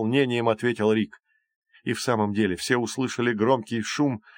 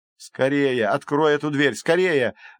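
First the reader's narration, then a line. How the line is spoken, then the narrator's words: Urgent shouting. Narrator (Russian): закричал Джейсон Фреду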